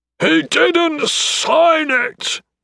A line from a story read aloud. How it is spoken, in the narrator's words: Dales roared